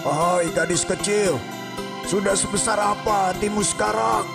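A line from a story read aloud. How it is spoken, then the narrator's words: Loud question. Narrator (Indonesian): tanya ular sawah dengan suara keras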